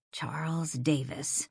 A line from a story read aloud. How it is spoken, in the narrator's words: she muttered, more to herself than to Earl